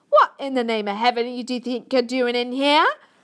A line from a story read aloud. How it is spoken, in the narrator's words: she shouted angrily to Sophie